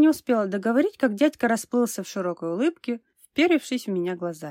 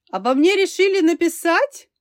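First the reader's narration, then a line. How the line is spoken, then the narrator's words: Cheerful, sly question. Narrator (Russian): Весело и хитро осведомился он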